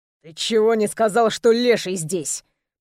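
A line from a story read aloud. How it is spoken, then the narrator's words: Hissed. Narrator (Russian): прошипел Соловьев своему другу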